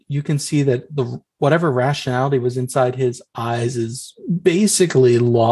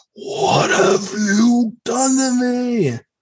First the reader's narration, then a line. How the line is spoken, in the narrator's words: Ghost Boy screams horribly and humanly and says